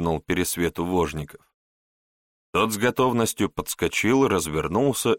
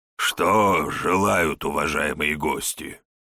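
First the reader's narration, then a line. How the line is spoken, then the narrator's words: Hoarse host. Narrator (Russian): хрипло спросил хозяин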